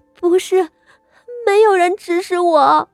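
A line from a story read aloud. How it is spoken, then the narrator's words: Sobbing, crying. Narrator (Chinese): 傅心怡呜咽一声，才哭道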